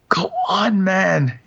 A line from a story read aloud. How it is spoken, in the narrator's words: he cried beseechingly, almost in a shout